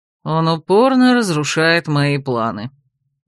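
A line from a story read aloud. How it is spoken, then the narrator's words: Snide mutter. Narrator (Russian): ехидно буркнул Рат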